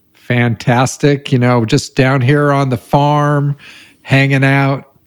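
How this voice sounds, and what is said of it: Bad put-on rural accent. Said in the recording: “What is up with that accent? ... That's pretty bad. ... That was bad.”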